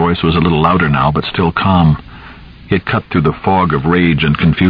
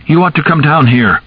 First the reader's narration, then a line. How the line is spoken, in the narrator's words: Charlie cried loudly